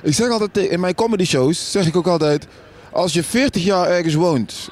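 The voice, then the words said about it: Brabant regional Dutch accent. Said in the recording (Dutch): “Tilburg, Brabant... Jij hebt ook echt dat accent, hè?”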